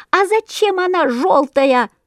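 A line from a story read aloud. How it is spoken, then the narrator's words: Chorus of squeaking sparrows. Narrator (Russian): запищали разом все воробьи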